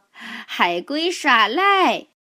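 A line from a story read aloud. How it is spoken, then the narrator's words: Giggling. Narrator (Chinese): 吉姆和基恩痴痴的笑着说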